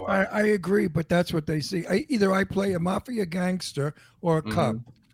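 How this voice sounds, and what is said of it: New York accent. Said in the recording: “my New York accent that they buy. They love my New York accent because it is so mafioso”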